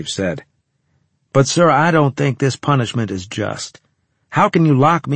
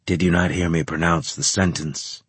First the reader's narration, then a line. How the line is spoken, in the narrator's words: Graves asked calmly